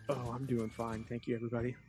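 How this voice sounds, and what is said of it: Creepy put-on radio DJ voice. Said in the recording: “I thought we were doing our DJ voices tonight. Was that as creepy as it sounded? ... That's your DJ voice. ... That was the creepiest.”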